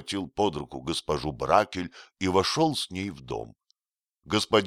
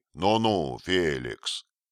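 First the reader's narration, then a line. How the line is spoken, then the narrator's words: Stern rebuke. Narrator (Russian): господин Бракель строго его остановил словами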